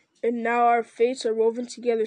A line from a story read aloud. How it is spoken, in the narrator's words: said Aragorn